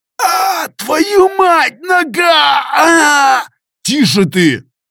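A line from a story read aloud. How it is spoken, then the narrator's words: Shouting. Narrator (Russian): Выкрикнул я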